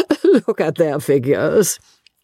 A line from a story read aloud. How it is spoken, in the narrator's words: laughed Miss Lavish